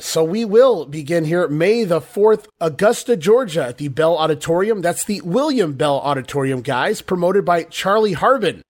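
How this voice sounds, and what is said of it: Congested, allergy-affected voice. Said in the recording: “my health situation, my allergies. Jamie, I'm sorry you have to put up with listening to my voice.”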